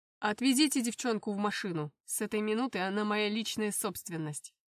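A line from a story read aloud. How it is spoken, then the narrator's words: Commanding order. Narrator (Russian): Приказал своим охранникам Жоржоляне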